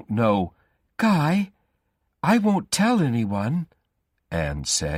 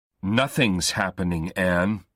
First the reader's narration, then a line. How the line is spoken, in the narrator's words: Guy said, and thought his voice sounded strange